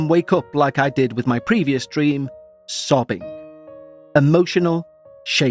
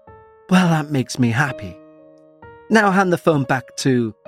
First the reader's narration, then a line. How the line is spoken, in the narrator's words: He gave a sigh of relief and says